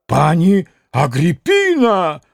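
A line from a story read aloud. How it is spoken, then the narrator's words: Shout. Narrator (Russian): закричал пан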